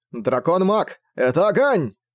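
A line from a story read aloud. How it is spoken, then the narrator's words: Puppet shouting out. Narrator (Russian): выкрикнула марионетка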